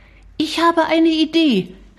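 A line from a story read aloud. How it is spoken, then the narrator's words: Called out. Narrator (German): rief Shari, schon fast aus dem Zimmer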